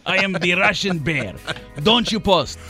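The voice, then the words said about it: Put-on Russian accent. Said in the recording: “And the Russian guy was very angry ... I tried to do that accent ... So I do all accent for you, okay?”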